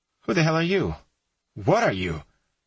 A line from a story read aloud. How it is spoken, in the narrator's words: Chris said in a frightened voice